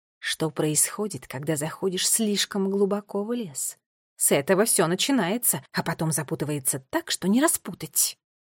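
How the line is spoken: Quiet remark. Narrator (Russian): тихо заметила Теа

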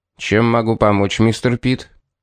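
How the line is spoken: Sharp question. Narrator (Russian): резко спросил

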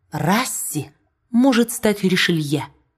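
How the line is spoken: Familiar whisper in ear. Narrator (Russian): фамильярно шепнула на ухо принцессе

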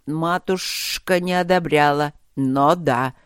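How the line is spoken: Slightly prim young hiss. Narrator (Russian): слегка чопорно прошипел молодой коллега

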